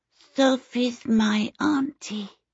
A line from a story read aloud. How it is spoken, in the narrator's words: the small boy answered in a sweet, lisping voice